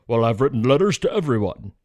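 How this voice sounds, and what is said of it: Imitates another person's voice. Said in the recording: “that's my Trump accent”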